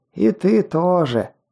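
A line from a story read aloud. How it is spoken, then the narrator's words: Rasping creature voice. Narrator (Russian): прохрипело ушастое существо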